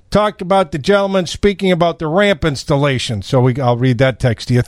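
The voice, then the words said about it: Natural Chicago accent. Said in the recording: “my Chicago accent ... That's not acting. That's natural.”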